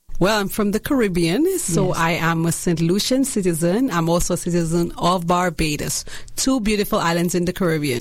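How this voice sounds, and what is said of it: Caribbean accent. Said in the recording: “your beautiful accent”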